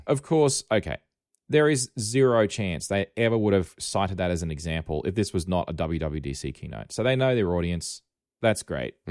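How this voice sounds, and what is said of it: Australian accent. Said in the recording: “I'm I'm just got an Australian accent.”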